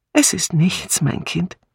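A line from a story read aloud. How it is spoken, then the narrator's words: Sigh, then smiling speech. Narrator (German): Miss Marple seufzte und sagte dann lächelnd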